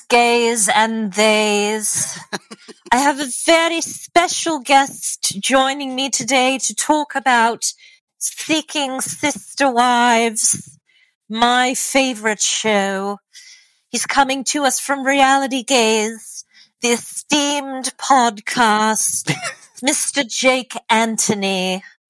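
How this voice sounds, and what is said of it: Kate Winslet's weird Regime accent. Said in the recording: “Is that Kate Winslet's accent from The Regime? ... Elizabeth Taylor meets Drew Barrymore. ... I need a completely different accent for this. And it's got to be weird”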